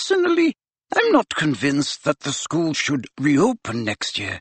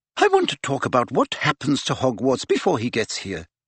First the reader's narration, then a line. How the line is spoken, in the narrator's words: she said quickly